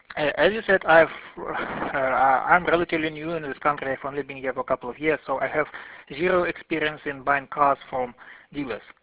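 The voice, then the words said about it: Russian-accented English. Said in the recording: “Russian gentleman ... my awful English accent”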